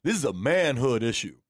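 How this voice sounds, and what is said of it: Imitates another person's voice. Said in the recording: “my Doc impression ... You need a little deeper”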